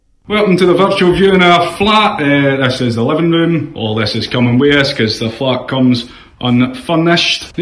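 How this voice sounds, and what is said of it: Thick accent. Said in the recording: “He's a little thick accent”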